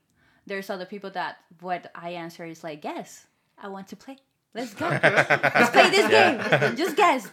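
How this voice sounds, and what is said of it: Heavy Colombian Spanish accent. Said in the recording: “being Hispanic and being Colombian and having a heavy accent”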